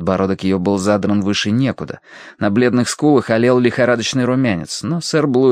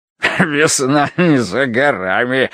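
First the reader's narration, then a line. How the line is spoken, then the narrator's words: Loud laughter. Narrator (Russian): расхохотался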